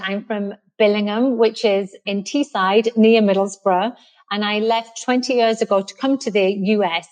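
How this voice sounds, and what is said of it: Northeast English accent. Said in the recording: “someone in America who hasn't got an American accent ... obviously I'm English. I'm from the northeast of England.”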